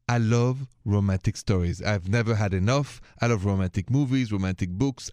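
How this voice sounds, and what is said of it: French accent. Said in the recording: “my accent is French”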